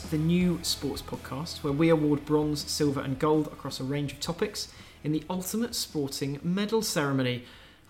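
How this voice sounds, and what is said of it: Polished radio presenter voice. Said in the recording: “Big fan of your radio voice. ... It's so rusty, it sounds so bizarre.”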